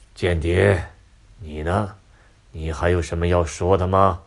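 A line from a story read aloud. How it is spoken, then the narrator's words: Cold. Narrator (Chinese): 印加 冷冷的说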